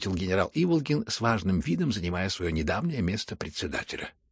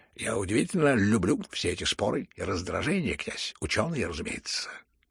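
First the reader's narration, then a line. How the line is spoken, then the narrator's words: Excited impatient mutter. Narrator (Russian): пробормотал между тем Келлер в решительном упоении и нетерпении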